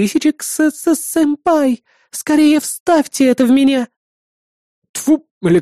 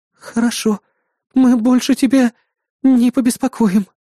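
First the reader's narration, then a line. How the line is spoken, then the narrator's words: Breathed out. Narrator (Russian): выдохнула Жнец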